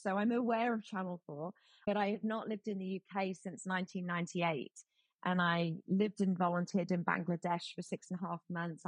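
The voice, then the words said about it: British accent. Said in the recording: “my accent is very British”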